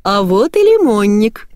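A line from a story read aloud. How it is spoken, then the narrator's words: Cheerful, from the corridor. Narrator (Russian): весело произнесла из коридора Ирина Леонидовна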